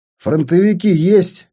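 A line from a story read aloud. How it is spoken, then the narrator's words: Loud question. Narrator (Russian): громко спросил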